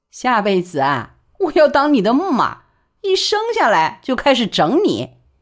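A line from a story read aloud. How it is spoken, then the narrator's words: Laughing. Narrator (Chinese): 万小景便笑说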